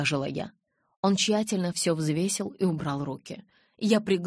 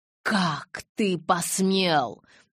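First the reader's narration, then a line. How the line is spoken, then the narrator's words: Growl. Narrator (Russian): зарычала я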